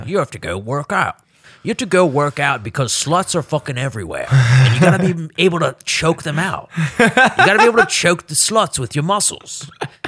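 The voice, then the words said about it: Weird accent, imitates another person's voice. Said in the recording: “Weird accent”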